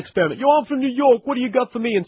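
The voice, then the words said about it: Fake New York accent. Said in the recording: “the fake accent”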